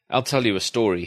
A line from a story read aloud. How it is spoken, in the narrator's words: he said